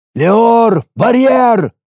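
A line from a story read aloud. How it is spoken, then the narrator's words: Loud command. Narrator (Russian): громко скомандовал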